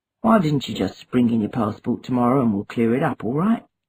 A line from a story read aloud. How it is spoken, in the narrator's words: Obinze mumbled